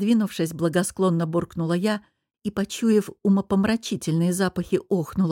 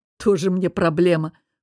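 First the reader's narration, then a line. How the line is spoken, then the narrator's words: Dismissive snort. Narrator (Russian): фыркнул мой самопровозглашенный антидепрессант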